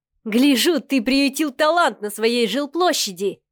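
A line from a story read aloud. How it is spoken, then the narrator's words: Loud laughter. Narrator (Russian): хохотал Миха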